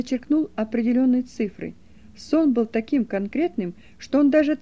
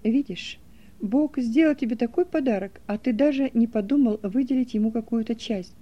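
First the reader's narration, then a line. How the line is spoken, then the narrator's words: Plain. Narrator (Russian): сказал я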